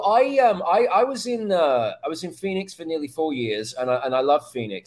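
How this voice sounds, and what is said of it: British accent. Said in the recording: “the only thing that's British about me is my accent”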